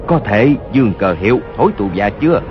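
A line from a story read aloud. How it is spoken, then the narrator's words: Low voice, wounded. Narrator (Vietnamese): Hốt Đô Hổ toàn thân giấy máu, hạ giọng nói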